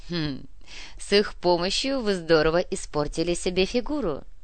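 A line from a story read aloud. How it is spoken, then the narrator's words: Giggled. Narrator (Russian): хихикнула Анна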